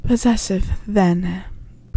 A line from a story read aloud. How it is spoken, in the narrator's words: breathed Harry